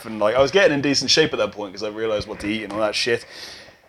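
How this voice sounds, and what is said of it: Posh British accent. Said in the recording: “someone just said I had a posh accent ... We both have posh accents ... Such a posh accent”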